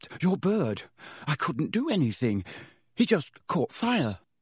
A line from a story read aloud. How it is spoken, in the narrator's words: Harry gasped